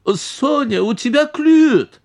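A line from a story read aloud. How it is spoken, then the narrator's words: Aunt squealed. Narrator (Russian): взвизгнула тетя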